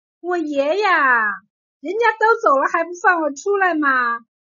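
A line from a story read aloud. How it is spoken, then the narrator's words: Girl, boastful. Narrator (Chinese): 快嘴丫头 邀功地说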